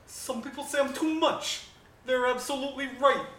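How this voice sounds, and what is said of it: Imitates another person's voice. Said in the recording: “Do a Siggy impression”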